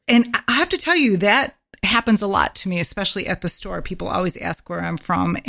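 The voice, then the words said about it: Midwestern American accent. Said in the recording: “my Midwestern accent ... I don't even realize that I have this Midwestern accent.”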